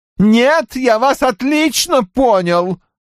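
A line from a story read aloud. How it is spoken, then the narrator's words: Yelled. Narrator (Russian): завопил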